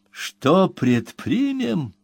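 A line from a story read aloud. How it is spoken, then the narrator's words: Sudden heated exclamation. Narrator (Russian): неожиданно воспламеняясь, воскликнул клиент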